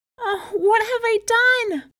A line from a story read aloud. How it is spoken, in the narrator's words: cried Shindu